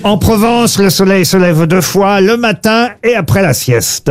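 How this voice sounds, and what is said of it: Slight southern French accent. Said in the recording (French): “Vous avez utilisé un petit accent. ... Bah oui, puisque ça parle du midi”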